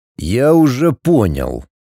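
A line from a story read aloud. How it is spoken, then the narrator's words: Icy reply. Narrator (Russian): ледяным тоном ответил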